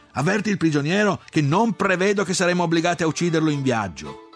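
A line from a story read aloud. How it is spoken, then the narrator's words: Shouted. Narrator (Italian): gridai a Bene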